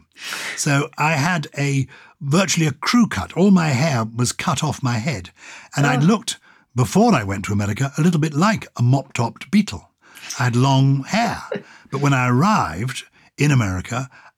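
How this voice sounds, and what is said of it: English accent. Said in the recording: “I was British, I had an English accent”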